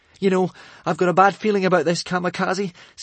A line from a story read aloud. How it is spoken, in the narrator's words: said Hiccup, slightly nervously